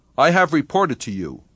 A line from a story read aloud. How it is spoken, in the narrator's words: said Meyerhof stiffly